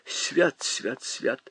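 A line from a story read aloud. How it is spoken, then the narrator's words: Old woman mumbling. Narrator (Russian): бормотала старуха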